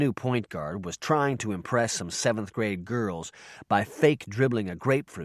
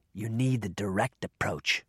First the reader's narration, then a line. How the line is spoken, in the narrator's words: whispered Commando